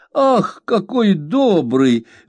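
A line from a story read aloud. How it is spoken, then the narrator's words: Exclamation. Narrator (Russian): воскликнула Пегати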